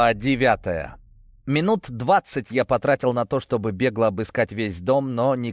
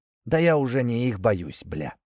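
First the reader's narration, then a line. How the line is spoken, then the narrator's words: Muttered. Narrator (Russian): пробормотал он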